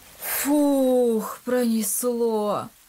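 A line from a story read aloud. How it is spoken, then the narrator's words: Relieved exhale. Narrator (Russian): выдохнул Илья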